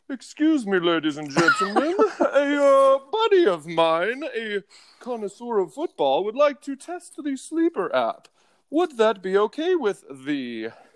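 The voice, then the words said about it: Imitates another person's voice. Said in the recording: “let me speak in my Abides voice.”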